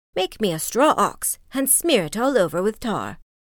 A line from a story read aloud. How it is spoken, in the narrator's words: cried she